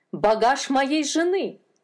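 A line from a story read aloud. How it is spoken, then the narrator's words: Shouting. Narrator (Russian): закричал он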